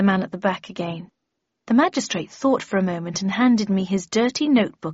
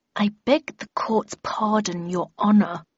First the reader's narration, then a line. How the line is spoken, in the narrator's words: he replied through gritted teeth